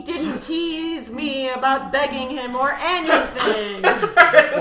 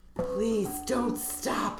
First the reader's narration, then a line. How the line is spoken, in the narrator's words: I breathed